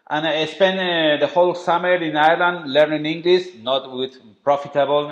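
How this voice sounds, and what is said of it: Strong Spanish accent. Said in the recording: “my accent, I know it's terrible. It's a very Spanish strong accent.”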